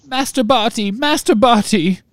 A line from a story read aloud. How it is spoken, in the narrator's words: sobbed Winky through her hands